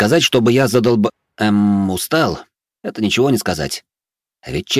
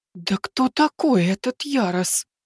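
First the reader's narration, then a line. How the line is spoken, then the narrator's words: Stunned whisper. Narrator (Russian): ошарашенно прошептала Аса Карини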